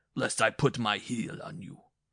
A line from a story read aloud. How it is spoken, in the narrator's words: he bellowed